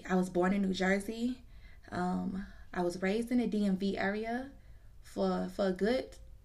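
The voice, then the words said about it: Slight regional twang accent. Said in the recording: “I do have a little bit of an accent, a little Jiggy Jungle twang”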